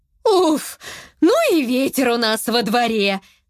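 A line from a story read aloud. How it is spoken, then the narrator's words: Exclaiming. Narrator (Russian): воскликнула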